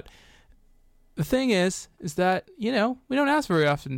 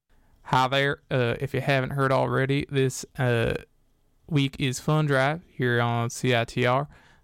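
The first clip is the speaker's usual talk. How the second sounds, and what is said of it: Put-on Southern accent. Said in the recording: “I don't have a Southern accent, so I'm going to stop doing this.”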